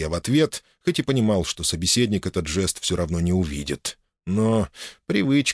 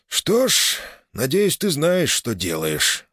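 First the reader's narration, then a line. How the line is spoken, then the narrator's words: Sighing. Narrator (Russian): вздохнул глава приказа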